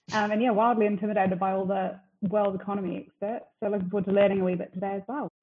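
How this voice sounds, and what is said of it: New Zealand accent. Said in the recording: “back in New Zealand, hence the accent.”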